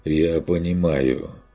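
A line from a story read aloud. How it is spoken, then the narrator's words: Displeased sigh. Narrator (Russian): с явным неудовольствием вздохнул рыцарь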